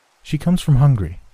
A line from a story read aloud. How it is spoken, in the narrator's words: she said